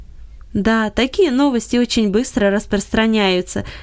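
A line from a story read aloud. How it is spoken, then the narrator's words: Laughing. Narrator (Russian): засмеялся Гельберт Леньерт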